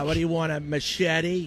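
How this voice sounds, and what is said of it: Put-on local New England accent. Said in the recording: “I don't know if that accent was good. ... It was close. Dude, that was pretty good. It's okay. Not bad.”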